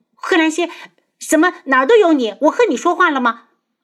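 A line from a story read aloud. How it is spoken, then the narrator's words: Embarrassed anger. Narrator (Chinese): 东方颜月一窘，顿时恼羞成怒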